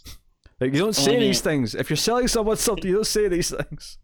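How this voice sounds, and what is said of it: Usual voice. Nothing is said of it.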